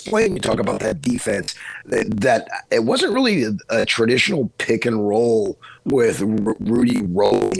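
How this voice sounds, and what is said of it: Hoarse, strained voice. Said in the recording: “I was screaming and I've lost my voice this morning.”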